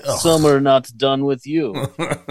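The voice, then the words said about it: Bad mock Russian accent. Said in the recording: “really bad Yakov Smirnoff impression”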